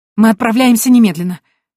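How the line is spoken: Exclaiming. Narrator (Russian): воскликнула я

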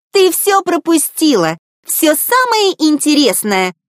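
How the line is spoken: Joyful yelling. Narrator (Russian): радостно завопила Дризелла

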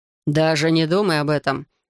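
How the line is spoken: Barked. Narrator (Russian): рявкнул Райден

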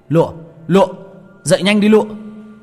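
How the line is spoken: Panicked shout. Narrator (Vietnamese): Tôi hoảng hồn miệng hét lên

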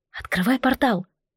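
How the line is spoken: Whispered. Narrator (Russian): Я шепнула

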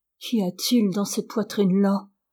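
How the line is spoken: Murmur. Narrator (French): murmura-t-elle

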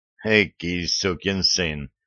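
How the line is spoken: Grumbled. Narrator (Russian): проворчала О'Мелли

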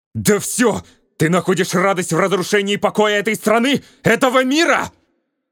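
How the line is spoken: Furious shout. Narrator (Russian): закричал Голд в ярости

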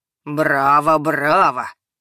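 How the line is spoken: Mocking. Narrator (Russian): проговорил насмешливо

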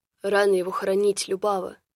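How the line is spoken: Menacing grumble. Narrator (Russian): грозно буркнул Радомир

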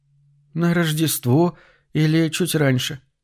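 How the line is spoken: Timid answer. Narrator (Russian): робко отвечала Аделла

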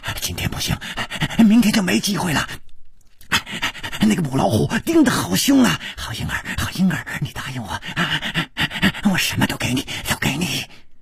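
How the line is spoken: Heavy panting, cut off. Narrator (Chinese): 他的嘴还没有说完，就好像被什么东西给堵住了，师传宗的喘息声更粗了

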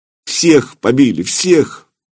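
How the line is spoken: Sobbing. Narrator (Russian): Добрыня зарыдал

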